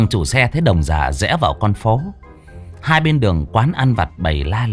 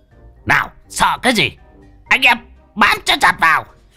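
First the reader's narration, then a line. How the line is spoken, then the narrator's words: Old man howling. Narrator (Vietnamese): Đồng già rú lên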